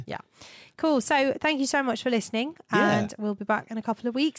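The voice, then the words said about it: Slightly croaky voice. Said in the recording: “my voice is back to being a bit croaky”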